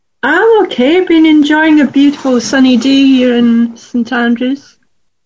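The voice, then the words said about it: Scottish accent. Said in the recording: “Scotland ... I love your accent. It's beautiful.”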